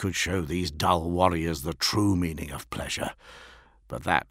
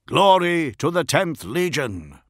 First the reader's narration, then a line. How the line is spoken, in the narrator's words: bellowed the Iron Hands